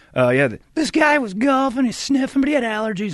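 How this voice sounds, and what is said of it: Imitates another person's voice. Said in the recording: “your impression ... Yeah, everybody does a Brady.”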